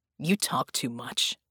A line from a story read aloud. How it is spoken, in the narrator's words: Red muttered